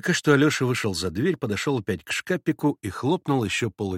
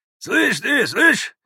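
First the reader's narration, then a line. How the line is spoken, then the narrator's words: Shouted. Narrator (Russian): крикнул вслед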